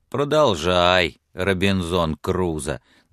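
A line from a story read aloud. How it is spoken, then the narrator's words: Good-natured grumble. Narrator (Russian): добродушно проворчал он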